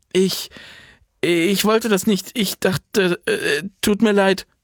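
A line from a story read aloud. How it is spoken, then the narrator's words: Stammering. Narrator (German): stammelte sie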